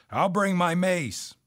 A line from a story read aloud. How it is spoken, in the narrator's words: Dick shouted